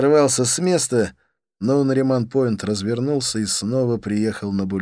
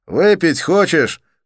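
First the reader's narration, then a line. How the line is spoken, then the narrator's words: Shouting over engine noise. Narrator (Russian): крикнул я Олегу, перекрывая шум мотора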